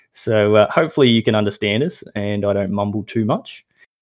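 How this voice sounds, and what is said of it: Australian accent, slightly mumbled. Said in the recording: “my horrible accent ... We are recording from Australia, Melbourne, Australia ... my mumbling voice”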